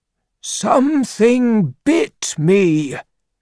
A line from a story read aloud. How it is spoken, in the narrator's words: cried Ra